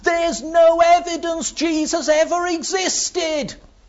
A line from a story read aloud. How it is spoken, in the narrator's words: one lad shout